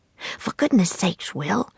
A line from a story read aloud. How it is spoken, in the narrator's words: said in a frantic whisper